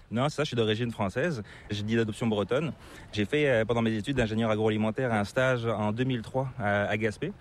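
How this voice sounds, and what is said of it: Slight hard-to-place accent, not Québécois. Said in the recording (French): “tu as une petite pointe d'accent qui est assez difficile de deviner... c'est pas l'accent québécois”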